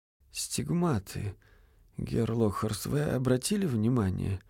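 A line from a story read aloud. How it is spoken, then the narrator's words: Muffled question. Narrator (Russian): глухо спросил Винтерков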